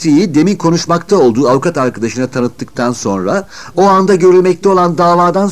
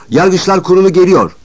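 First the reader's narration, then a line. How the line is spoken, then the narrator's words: Shouted. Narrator (Turkish): diye bağırınca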